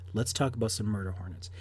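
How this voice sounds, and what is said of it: Mock-serious voice. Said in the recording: “this is my serious voice.”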